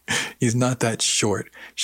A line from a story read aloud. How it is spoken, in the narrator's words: she said